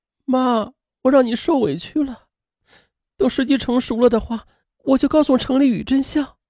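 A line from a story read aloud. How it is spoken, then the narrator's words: Choked up. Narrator (Chinese): 潘明莹不仅哽咽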